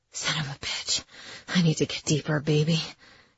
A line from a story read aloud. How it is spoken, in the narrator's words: he whispered on my lips